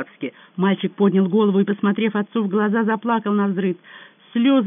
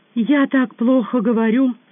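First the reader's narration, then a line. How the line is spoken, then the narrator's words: Tearful boy's mumble, English accent. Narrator (Russian): сквозь слезы пробормотал мальчик с сильным английским акцентом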